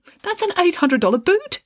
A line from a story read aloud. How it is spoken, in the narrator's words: exclaimed the secretary, who had a great deal of respect for footwear, expensive footwear in particular